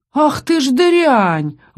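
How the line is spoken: Pained howl. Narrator (Russian): взвыл укушенный пастух

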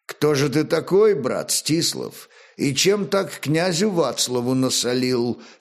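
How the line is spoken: Plain. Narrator (Russian): спросил он

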